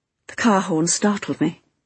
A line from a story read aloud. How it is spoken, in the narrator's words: she said rather shakily